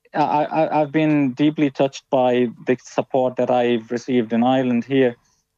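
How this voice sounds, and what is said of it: Foreign, non-Irish accent. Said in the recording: “they will notice the different accent”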